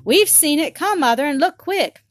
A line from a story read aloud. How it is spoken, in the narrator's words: Maggie and Tot cried out